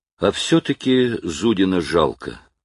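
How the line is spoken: Tired sigh. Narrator (Russian): вздыхает устало Щеглов

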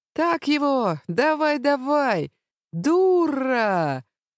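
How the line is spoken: Loud women's shouting. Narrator (Russian): кричали особенно громко женщины с избыточным весом

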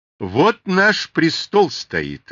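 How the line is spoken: Loud. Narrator (Russian): громко сказал Аввакум

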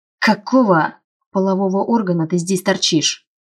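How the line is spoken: Growling man. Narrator (Russian): зарычал мужчина

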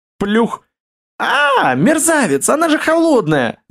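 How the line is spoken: Shrieking. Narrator (Russian): завизжала Оля, вынырнув из воды

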